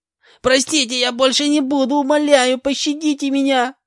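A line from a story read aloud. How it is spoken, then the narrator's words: Squealing, pleading. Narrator (Russian): Визжал мужик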